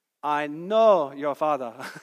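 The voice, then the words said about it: Imitates Rafiki's accent. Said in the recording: “I may mess up the accent”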